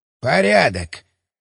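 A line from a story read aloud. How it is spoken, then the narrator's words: Grumbling mutter. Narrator (Russian): пробурчал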